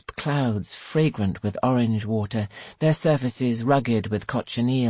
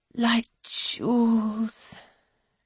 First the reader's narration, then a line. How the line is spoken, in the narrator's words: she sighs